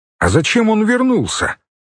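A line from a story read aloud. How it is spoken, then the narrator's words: Loud question. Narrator (Russian): громко спросил Кертис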